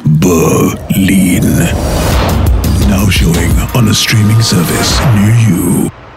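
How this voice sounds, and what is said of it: Deep announcer-style voice. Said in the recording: “Mr. Deep Voice”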